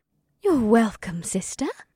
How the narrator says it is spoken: Ibsith sweetly smiled

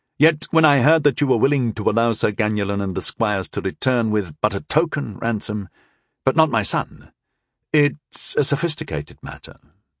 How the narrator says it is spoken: I said smoothly, as smoothly as I could

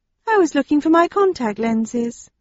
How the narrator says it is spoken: she said in a friendly tone

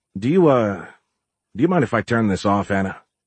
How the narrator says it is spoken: Giles muttered

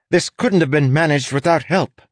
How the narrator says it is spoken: the inspector snapped at the dockmaster

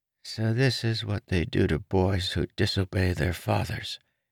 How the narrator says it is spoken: mumbled

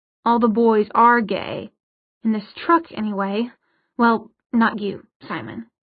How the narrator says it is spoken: Isabel snorted

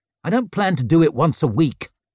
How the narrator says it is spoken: he snapped

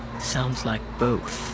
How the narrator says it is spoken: Brendel murmured, barely loud enough to be heard

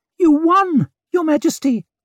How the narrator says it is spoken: piped up Bremer Dan Gorst

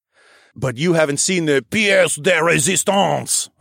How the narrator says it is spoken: I said in a silly French accent

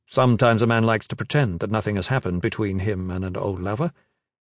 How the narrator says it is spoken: Gavin said quickly

